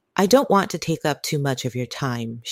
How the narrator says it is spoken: she replied

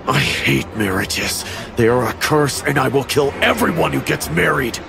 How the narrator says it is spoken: smiled and menacingly said

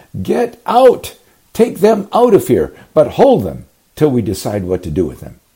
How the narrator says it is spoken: someone shouts

